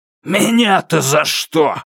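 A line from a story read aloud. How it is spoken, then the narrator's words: Roar. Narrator (Russian): проревел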